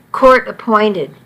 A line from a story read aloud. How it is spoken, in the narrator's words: Bridget replied